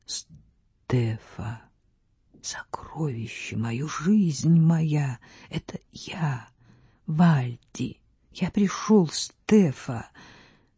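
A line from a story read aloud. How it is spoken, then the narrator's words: Hollow, muffled voice. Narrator (Russian): Вальдемар произнес глухим голосом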